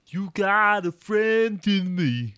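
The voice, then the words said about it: Sung imitation of another person's voice. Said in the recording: “That's a really good impression. ... Actually, that's Randy Newman”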